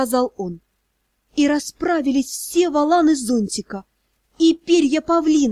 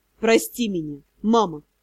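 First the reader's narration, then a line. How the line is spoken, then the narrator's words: Sighing. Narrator (Russian): Вздохнул он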